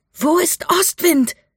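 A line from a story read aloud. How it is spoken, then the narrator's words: Shouting over wind. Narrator (German): schrie Mika gegen den Wind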